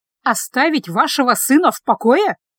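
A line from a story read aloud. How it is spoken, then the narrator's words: Indignant. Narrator (Russian): возмущенно сказала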